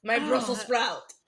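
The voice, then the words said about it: Put-on French accent, like Lumiere. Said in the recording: “In a French accent. ... what he said in a French accent reminded me of Lumiere.”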